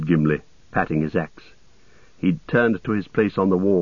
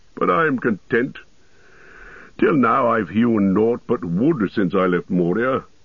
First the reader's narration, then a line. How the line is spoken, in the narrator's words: laughed the dwarf